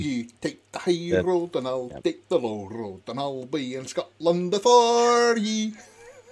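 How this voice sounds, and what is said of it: Put-on Scottish Edinburgh accent. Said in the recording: “This is a very good Scottish accent. I think you'll find, actually. ... This is over the Edinburgh side.”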